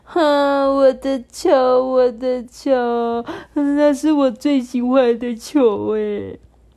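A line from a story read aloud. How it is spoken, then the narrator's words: Crying. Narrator (Chinese): 慢慢龟哭着说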